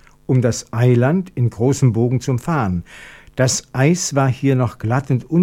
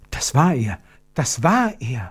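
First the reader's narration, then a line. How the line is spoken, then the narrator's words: Whisper. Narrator (German): flüsterte Gertrud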